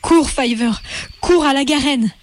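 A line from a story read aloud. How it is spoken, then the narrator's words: Urgent exclamation. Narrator (French): s'écria Hazel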